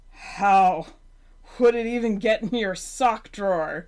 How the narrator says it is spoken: Gary demanded through wheezing breaths

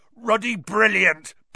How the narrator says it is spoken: boomed Hagrid over the heads of the milling Gryffindors

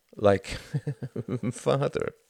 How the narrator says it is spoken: laughed Tom

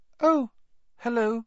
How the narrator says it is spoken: he said, his voice much higher than usual

